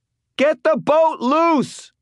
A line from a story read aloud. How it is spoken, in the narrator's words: Elaine shouted